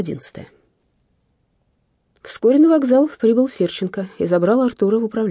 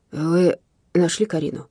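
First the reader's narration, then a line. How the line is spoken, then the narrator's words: Quiet question. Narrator (Russian): тихо спросил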